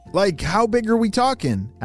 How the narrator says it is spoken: asked Ava

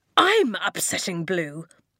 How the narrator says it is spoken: Tomkin spat

